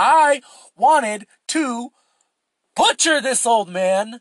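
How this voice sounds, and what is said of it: Usual voice. Nothing is said of it.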